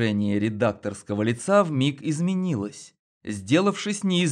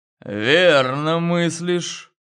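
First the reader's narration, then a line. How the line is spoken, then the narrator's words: Through gritted teeth. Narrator (Russian): процедил он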